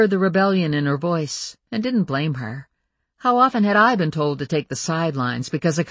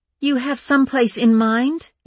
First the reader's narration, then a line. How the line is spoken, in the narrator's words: asked Jessie tightly